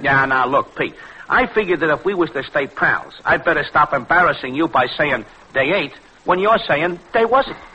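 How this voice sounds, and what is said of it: Bronx New York accent. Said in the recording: “this beautiful Bronx English of yours... You'll spoil your accent.”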